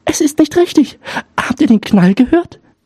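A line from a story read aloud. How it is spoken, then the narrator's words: Young girl calling. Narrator (German): Die Jüngste rief wieder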